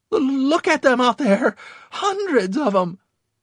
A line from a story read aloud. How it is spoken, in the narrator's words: Always the pessimist, he shrieked